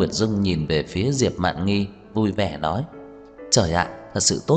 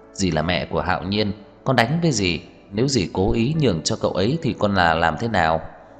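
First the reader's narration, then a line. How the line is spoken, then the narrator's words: Smiling, frank. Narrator (Vietnamese): Tưởng Thiên Lỗi mỉm cười thẳng thắn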